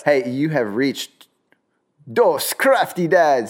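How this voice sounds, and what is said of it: Weird put-on accent. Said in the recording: “that was a weird accent with that”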